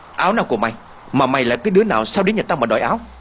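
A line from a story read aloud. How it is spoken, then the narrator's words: Angry. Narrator (Vietnamese): Thủy tức giận nói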